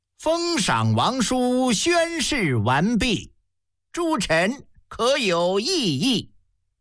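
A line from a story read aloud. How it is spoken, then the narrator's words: Loud question. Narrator (Chinese): 司礼大臣高声问了一句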